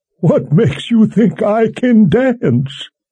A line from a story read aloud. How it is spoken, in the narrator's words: Kaelin laughed